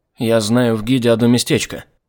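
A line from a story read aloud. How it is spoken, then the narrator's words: Plain. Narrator (Russian): сказал он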